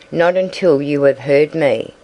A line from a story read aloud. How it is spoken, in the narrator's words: Alice raised her voice a little